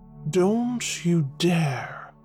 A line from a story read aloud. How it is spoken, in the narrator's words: Adrastus hissed